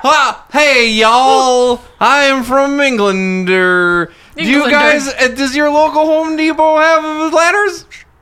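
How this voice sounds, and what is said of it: British man attempting Creole accent. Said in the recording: “I gotta be a British guy trying to be Creole.”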